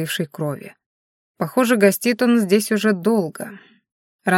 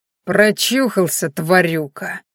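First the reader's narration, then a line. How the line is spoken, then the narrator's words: Spiteful spitting snarl. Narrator (Russian): злобно сплюнул один из бородачей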